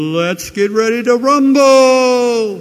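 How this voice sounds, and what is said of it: Imitates a boxing announcer's call. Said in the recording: “Forgive the bad imitation.”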